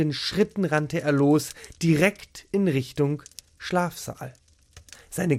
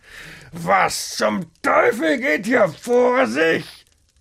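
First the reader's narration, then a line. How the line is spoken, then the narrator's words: Angry roar. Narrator (German): brüllte er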